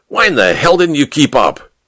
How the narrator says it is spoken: he barked

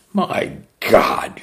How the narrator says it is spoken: she sneered

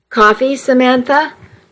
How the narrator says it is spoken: Joshua asked

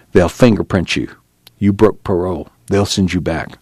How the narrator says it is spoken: He whispered

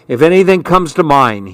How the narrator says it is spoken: he said firmly

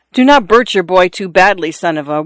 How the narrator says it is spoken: one of the men in the room cried to her

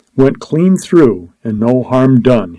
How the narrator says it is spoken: he cried jubilantly

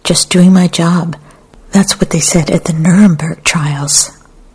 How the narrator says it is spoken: Another man cried

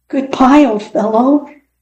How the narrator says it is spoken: he called out sadly, sure that Fritz was gone forever

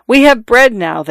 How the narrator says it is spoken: they cried

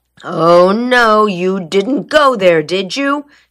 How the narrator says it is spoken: groaned

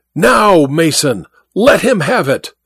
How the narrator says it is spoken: The words ended in a roar of mingled rage and pain

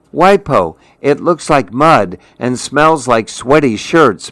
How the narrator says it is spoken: Mimi cried

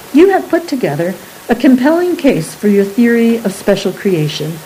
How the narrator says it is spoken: said Professor Hippolytus

